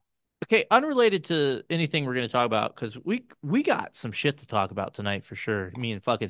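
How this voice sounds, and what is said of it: Usual voice. Nothing is said of it.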